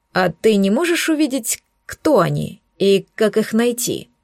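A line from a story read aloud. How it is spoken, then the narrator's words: Plain. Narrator (Russian): спросил демона Абилард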